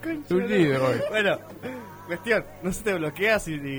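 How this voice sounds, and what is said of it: Usual voice. Nothing is said of it.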